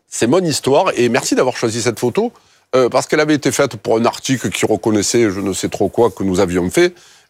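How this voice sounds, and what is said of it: Strong Marseille southern French accent. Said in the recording (French): “mon authenticité s'entend toujours, pique un peu les yeux, mon accent, c'est un peu l'ail ... Les quartiers nord, Marseille.”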